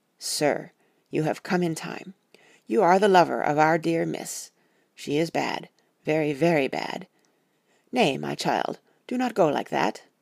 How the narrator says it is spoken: he said to him gravely

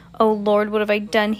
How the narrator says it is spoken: he groans

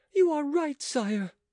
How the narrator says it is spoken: cried the queen joyfully

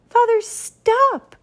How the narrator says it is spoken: shouted Walter Jr

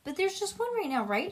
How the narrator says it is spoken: She asked quickly

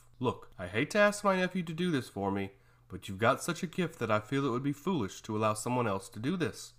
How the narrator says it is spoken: said softly

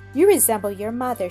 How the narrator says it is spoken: she said with a kindly smile

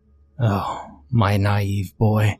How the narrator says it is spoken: she breathed

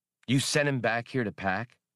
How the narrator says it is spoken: Han asked

